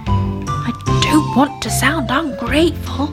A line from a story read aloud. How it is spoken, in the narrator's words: he whispered to Granny Ted